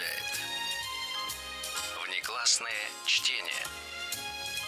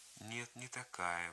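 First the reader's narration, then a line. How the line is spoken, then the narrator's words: Slow, muffled objection. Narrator (Russian): возразила она неторопливым и глухим голосом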